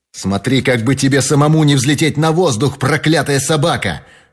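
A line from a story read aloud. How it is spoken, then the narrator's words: Furious shout. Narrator (Russian): в бешенстве закричал Фрэнк Мерфи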